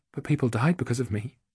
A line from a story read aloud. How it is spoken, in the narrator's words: her voice faltered